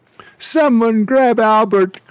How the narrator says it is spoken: cried the steward

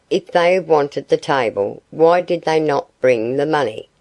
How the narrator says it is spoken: she said

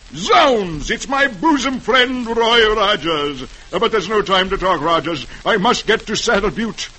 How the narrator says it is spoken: The driver exclaims

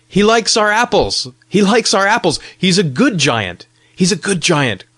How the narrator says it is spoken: cried many little voices

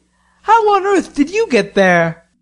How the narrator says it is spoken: He exclaimed

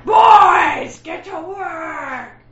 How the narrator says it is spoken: He'd, like, scream at the boys

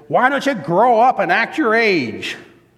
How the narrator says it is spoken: you'll explode and shout to the kids

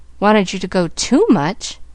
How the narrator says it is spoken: Pollyanna sighed again

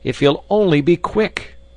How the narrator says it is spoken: cried the famished youths

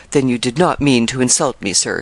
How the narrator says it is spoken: said Lake

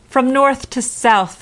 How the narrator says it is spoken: they cried

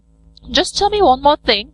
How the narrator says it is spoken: cried Johnny Chuck hastily

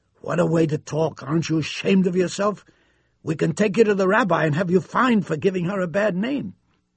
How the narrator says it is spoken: they said indignantly

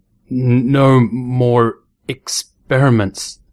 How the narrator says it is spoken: he stuttered

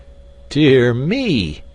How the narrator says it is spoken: he exclaimed

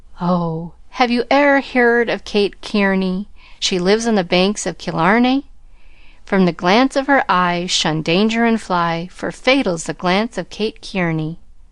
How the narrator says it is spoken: sighed and sung with a look to me

